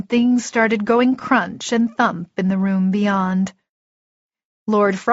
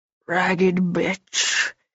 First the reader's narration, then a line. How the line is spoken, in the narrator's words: hissed